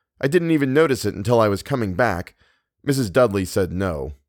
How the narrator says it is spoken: he added, his voice tight

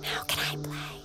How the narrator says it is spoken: whisper

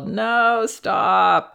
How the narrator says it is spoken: she whined and yelled

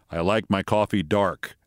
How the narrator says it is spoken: Biden kind of stiffly says

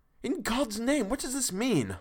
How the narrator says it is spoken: Harker cried out

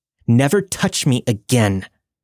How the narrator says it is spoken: angrily shouted

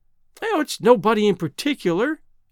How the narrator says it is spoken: she explained, laughing

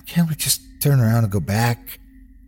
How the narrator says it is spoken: Christy pleads

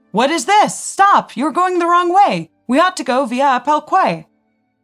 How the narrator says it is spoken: Seeing the first two cars erroneously turn, loudly shouted

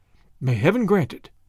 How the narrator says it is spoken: the girl breathed

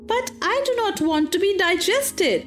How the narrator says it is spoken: howled Pinocchio, beginning to cry

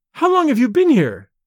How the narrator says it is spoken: she cried, shrinking away from him

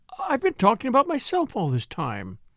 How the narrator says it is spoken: she exclaimed

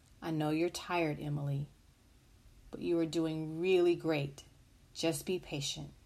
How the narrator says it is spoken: the mother quietly said

